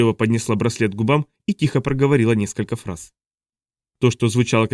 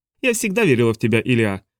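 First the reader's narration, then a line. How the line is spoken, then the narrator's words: Wry snort. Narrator (Russian): хмыкнула Хоури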